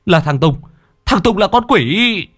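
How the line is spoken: Sudden shout. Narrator (Vietnamese): Bất chợt thằng Tám hét lên

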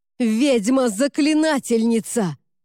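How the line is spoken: Yelling. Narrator (Russian): завопил он

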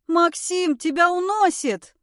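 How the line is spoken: Shouted. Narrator (Russian): прокричала Эмилия

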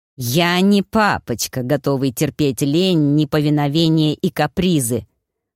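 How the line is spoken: Hissed close into ear. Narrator (Russian): прошипел Набар в Танино мохнатое ухо

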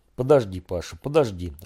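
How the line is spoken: Distracted mumble. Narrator (Russian): бормотал Женя, углубившись в бумаги

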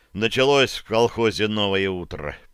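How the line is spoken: Mumbled. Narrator (Russian): пробормотал

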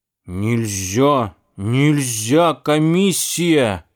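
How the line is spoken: Stern old woman. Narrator (Russian): грозно говорила бабушка

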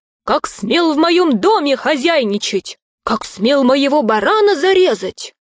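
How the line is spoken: Angry shout. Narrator (Russian): закричал на Вечерку

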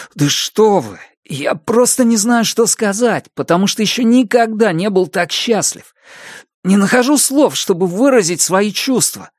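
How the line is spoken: Touchingly sincere exclamation. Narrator (Russian): воскликнул он с трогательной искренностью

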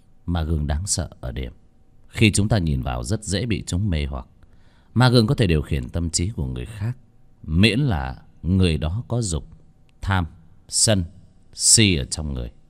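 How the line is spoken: Cold voice. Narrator (Vietnamese): lạnh lùng nói

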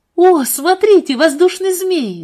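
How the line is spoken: Sudden loud exclamation. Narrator (Russian): вдруг воскликнула Марианна, и даже дети услышали ее

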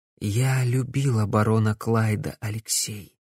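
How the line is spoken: Said quietly. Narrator (Russian): тихо произнесла Корделия

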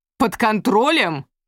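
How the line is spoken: Objecting male voice, heavy accent. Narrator (Russian): возражал мужской голос с резким акцентом

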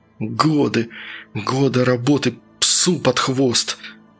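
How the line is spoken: Angry, through teeth. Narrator (Russian): злобно цедил он сквозь зубы

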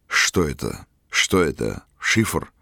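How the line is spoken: Muttering. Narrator (Russian): бормотал он

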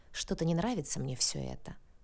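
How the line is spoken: Muttering. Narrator (Russian): пробормотал Яныш

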